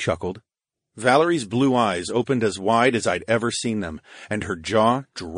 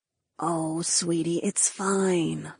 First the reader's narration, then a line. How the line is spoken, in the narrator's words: Ryan cooed